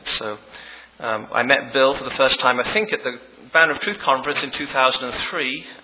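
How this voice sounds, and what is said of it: English accent. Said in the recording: “the funny accent is English ... I still maintain my English accent”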